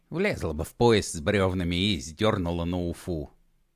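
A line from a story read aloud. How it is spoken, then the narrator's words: Grumble. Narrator (Russian): пробурчала щука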